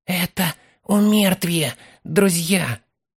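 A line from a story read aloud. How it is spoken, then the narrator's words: Whisper. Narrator (Russian): прошептал Фолка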